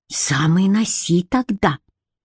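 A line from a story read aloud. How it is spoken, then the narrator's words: Hissed. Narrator (Russian): прошипела Бренна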